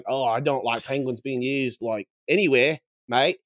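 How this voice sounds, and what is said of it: Put-on accent. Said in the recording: “What's happening to ... voice? ... he's just doing an accent”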